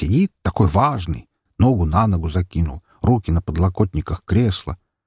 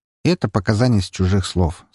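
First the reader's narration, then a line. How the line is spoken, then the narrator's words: Calm reply. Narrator (Russian): спокойно ответил я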